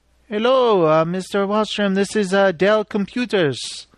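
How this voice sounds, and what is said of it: Bad put-on Indian accent. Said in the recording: “that's my bad Indian accent”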